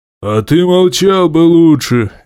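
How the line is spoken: Sharp barked retort. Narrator (Russian): рявкнул в ответ Сишк

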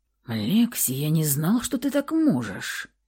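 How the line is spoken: Whistling whisper. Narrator (Russian): прошептал свистящим шепотом

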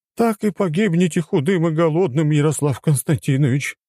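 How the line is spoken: Heavy sigh. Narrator (Russian): тяжело вздохнула Евгения

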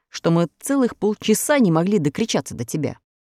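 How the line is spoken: Angry reply. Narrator (Russian): сердито ответил страж ворот

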